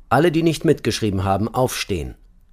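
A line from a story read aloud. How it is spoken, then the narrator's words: Called out. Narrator (German): rief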